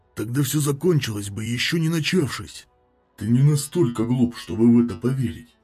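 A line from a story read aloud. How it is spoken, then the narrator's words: Soft reply. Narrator (Russian): мягко ответил Талос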